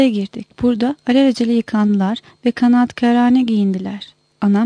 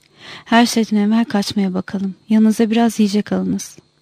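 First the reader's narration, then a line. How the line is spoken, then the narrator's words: Hoarse, muffled voice. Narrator (Turkish): boğuk bir sesle dedi ki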